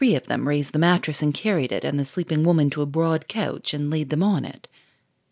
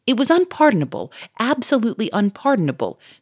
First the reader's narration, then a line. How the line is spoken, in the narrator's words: cried Monsieur Fourmery